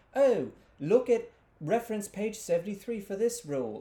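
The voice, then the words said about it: Put-on British accent. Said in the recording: “Where are we getting that accent? That's fun... They're British.”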